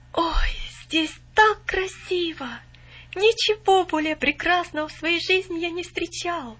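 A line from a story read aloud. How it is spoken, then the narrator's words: Awed exclamation. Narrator (Russian): воскликнул он, все еще под недавним впечатлением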